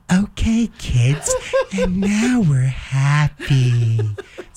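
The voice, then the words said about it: Imitates a children's TV host's voice. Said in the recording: “See, she's got that accent.”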